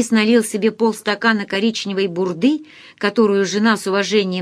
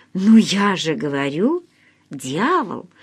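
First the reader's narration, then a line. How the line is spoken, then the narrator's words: Calm. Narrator (Russian): спокойно ответила Оксана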